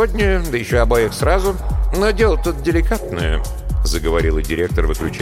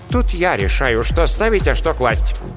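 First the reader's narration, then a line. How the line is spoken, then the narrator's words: Sharp reply. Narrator (Russian): резко ответила директор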